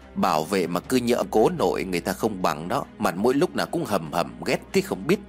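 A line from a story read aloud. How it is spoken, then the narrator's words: Grumbling mutter. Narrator (Vietnamese): Tiên lẩm bẩm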